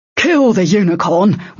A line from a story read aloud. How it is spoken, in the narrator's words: Westyke snapped to the hunter